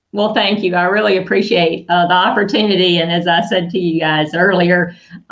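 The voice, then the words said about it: Southern US accent. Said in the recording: “I am from Birmingham, Alabama. So sorry about the accent.”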